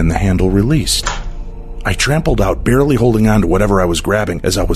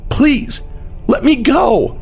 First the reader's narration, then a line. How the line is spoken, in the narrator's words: cried out